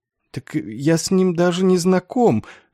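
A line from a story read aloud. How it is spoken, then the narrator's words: Pitiful mumble. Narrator (Russian): жалко промямлил капеллан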